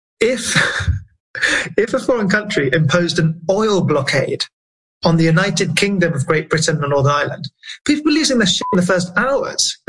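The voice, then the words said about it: British accent. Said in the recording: “I'm British, right? As you hear from my accent.”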